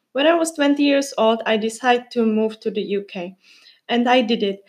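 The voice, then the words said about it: Czech-accented English. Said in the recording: “she has an accent, especially now, after I said the words thinking and probably... I am from the Czech Republic”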